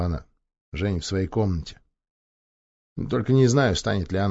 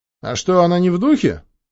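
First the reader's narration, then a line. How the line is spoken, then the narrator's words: Cheerful question. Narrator (Russian): весело поинтересовался Роман Дзюба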